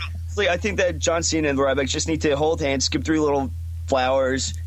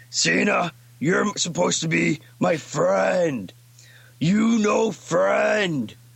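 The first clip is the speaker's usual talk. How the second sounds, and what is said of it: Ryback impression, Cookie Monster-like voice. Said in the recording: “he's doing Ryback ... You sound like fucking Cookie Monster”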